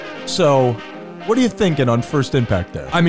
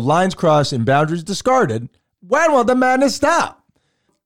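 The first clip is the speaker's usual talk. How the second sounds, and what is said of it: Old-timey 1920s radio announcer voice. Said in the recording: “you nailed the voice ... I felt like I was back in the 1920s ... Old-timey radio voice ... Somebody's just shouting it over the speakers”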